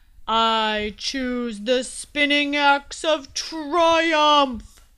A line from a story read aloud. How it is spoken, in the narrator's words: shouted the knight, her voice echoing through the armory like a ballista